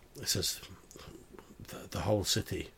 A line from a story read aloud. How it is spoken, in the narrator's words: in a very sad voice, it says